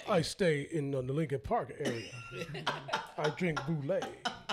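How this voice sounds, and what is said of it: Fancy upper-class white voice. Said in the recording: “What accent was that? ... What accent you just do? ... Hey, some fancy ass. ... That's my North Side white people voice. ... Oh, you fancy, huh? Voice.”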